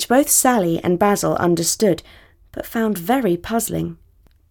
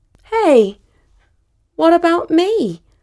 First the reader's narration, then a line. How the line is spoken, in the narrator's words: exclaimed